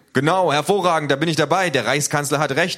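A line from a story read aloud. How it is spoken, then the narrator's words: Crowd shouting. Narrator (German): ruft die Menge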